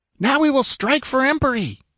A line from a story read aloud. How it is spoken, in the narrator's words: yelled